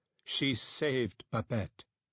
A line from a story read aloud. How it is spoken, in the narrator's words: she said, her tone formal